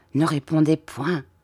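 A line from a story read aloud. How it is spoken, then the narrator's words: Quiet low voice. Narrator (French): dit-il tout bas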